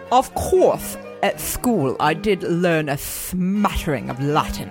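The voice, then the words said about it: Posh English accent impression. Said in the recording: “do it kind of like in your accent... The English accent is tough... You are so posh. So very, very posh.”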